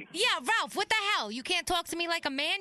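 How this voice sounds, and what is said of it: Angry yelling. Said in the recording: “You're yelling at me. You're yelling at me”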